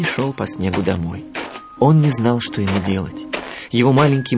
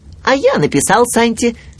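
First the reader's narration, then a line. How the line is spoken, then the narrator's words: Shout. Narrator (Russian): крикнул Ру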